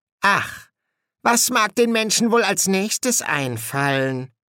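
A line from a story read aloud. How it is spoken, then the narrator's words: Musing aloud. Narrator (German): überlegte Ligur laut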